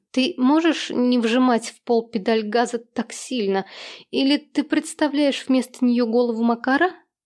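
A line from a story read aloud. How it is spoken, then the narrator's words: Forced mocking laugh. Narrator (Russian): Смеяться не хотелось, но получилось достаточно естественно, чтобы он поверил в насмешку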